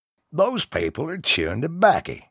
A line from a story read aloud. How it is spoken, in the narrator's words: Bill exclaimed